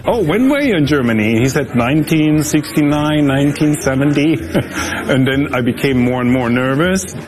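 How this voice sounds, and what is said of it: German accent. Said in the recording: “hey, I hear an accent. Where is your accent for? I said, from Germany.”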